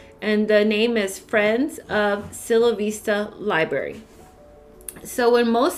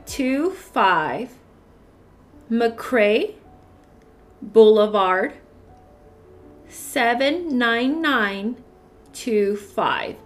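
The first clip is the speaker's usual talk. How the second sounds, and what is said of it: Reading very slowly. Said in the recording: “read it very slowly”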